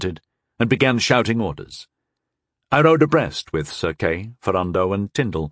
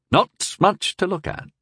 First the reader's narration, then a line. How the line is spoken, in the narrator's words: Sir Kay remarked in an undertone